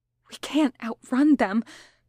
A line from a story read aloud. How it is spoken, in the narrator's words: Patton whispered desperately